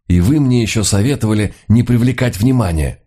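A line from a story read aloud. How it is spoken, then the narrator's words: Grumbling. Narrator (Russian): ворчал Люка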